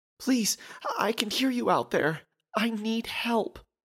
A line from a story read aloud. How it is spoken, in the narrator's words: pleaded the woman